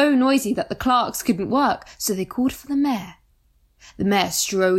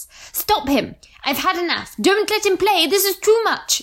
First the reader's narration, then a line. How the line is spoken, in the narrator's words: yelled the farmer